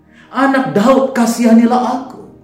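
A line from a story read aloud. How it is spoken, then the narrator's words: Crying out ever louder. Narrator (Indonesian): Ketika orang banyak melarangnya, dia semakin keras berseru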